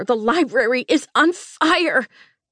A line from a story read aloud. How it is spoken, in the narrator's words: I rasped